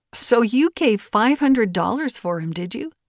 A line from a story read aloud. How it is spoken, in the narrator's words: laughed the widow